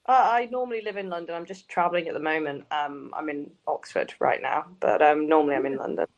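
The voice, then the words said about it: Slight northern English accent. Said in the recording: “sound a bit northern or Midland ... my parents are northern ... I say like Grass and Bath and stuff like that”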